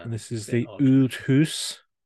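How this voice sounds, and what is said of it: Poorly done put-on accent. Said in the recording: “I think you butchered that accent”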